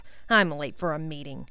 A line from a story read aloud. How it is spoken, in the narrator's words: grumbled Higgins